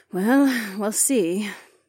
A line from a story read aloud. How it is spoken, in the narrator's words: the pretty soldier sighed